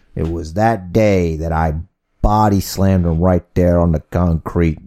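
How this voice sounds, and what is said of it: Unidentifiable put-on accent. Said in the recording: “I don't know what accent you're doing.”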